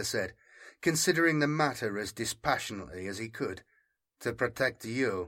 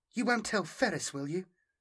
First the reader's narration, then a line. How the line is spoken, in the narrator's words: Melina asked, twisting her hands together anxiously